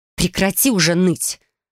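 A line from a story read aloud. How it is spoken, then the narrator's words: Irritated. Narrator (Russian): произнесла раздраженно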